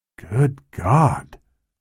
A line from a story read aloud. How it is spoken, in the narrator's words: the technician said quietly